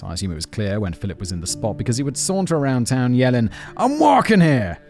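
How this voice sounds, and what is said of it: Bad put-on Brooklyn accent. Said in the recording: “a thick Brooklyn accent ... terrible accent”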